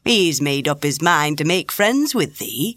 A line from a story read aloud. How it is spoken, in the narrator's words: replied Ben